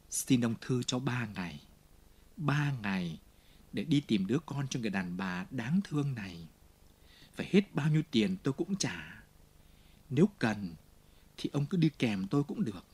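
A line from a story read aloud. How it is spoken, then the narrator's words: Low, fast voice. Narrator (Vietnamese): Jean Valjean ghé gần hắn và hạ giọng nói thật nhanh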